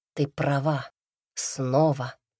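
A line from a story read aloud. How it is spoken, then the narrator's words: Exhaled. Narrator (Russian): выдохнул Редрик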